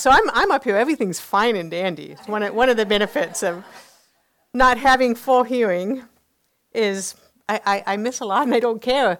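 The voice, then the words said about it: Distinctive accent-like speech. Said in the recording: “where's that accent from? Where's she from? It's speech. It's speech from a hearing loss.”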